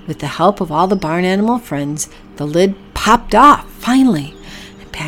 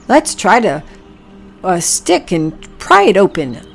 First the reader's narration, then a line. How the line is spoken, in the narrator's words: grunted Oliver excitedly